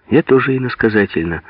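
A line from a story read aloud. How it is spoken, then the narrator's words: Calm reply. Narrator (Russian): спокойно ответствовал Алеша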